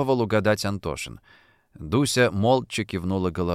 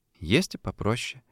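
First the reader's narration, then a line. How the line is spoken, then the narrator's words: Quiet confirmation. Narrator (Russian): тихо подтвердила Дуся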